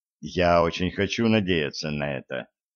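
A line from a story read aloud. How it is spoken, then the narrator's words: Quiet. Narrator (Russian): тихо сказал Широков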